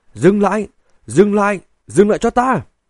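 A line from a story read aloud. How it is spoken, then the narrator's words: Frantic screaming. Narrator (Vietnamese): Ngụy Vô Tiện điên rồi, gào thét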